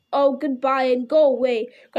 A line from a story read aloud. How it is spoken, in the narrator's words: grunted the dwarves, all the more angry because they were really filled with dismay at losing him